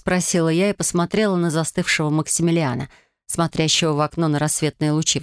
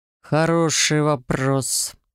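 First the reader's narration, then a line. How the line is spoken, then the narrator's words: Growling undertone. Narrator (Russian): с рычащими нотками произнес Максимилиан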